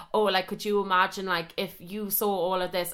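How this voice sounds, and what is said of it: Put-on accent drifting into English. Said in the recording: “what accent am I even doing? Like, it's going English now.”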